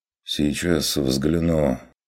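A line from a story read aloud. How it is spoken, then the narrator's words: Innkeeper's sigh. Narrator (Russian): вздохнул трактирщик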